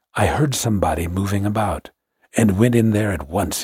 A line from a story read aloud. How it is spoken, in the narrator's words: whispered